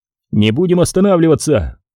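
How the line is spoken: Fearful urgent shout. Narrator (Russian): выкрикнул Крис, опасаясь снова попасть в окружение

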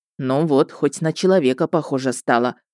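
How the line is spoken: Fond grumbling, grandmotherly. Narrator (Russian): ворчливым тоном любящей бабушки прокомментировал ведьмак

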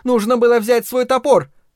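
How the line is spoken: Shout. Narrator (Russian): я крикнул

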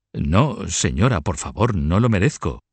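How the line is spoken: Former chamberlain exclaiming. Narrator (Spanish): El antiguo chambelán exclamó

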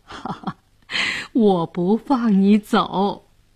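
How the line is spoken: Laughing. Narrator (Chinese): 笑着说

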